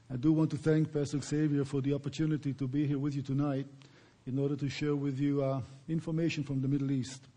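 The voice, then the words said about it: Noticeable foreign accent. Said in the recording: “I do have a funny accent, as you can tell”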